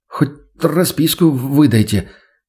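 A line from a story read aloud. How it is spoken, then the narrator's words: Stuttering request. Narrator (Russian): попросил он, заикаясь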